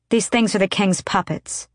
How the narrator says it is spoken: she said

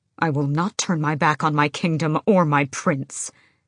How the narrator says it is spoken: Kaol snapped

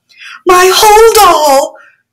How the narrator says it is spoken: yelled a mud woman

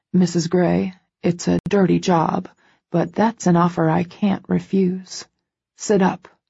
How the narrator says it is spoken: he orders, his voice husky

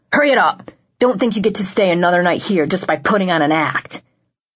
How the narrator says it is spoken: the PSF barked out

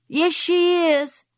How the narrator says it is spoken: shouted Frances

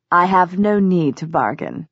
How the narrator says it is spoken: he said

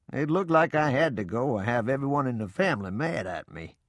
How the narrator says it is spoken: Papa laughed and said

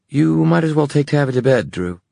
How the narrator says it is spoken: said Livy hastily

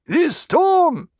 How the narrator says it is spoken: someone shouted

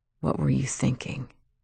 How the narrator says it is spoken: He said softly

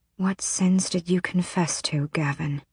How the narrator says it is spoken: She whispered into the dark

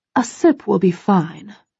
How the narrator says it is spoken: she whispers with a conspiratorial wink

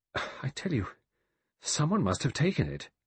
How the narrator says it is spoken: repeated helplessly, weakly

